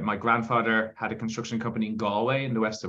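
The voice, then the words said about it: Irish accent. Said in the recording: “you can probably tell from my accent that um, I am I'm from Ireland”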